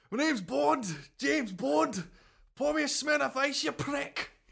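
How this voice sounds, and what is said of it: Unconvincing attempt at Liverpool accent. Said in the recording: “I don't know what accent you were doing there ... I was trying to do like a Liverpoolian accent, but it didn't quite come off.”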